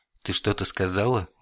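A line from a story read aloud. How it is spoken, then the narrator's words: Seemingly gentle question. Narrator (Russian): будто бы даже ласково спросил Вильхиор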